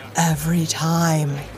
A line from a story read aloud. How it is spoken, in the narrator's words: he sighed